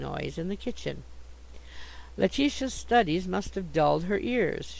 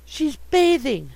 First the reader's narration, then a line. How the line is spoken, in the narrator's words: I gasped